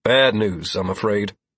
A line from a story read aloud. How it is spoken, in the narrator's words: I answered in a heavy voice